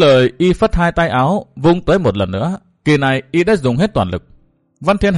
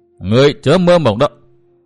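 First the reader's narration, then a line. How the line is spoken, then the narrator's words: Roaring shout. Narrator (Vietnamese): Hắc phong nữ Tiêu Như Anh gầm hét một tiếng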